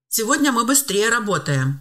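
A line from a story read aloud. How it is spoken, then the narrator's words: Cheerful. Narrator (Russian): весело заметил он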